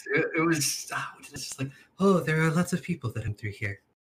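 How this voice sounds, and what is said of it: Put-on 'meh' voice. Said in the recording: “doing my meh voice ... It was better earlier, but it's still very cute.”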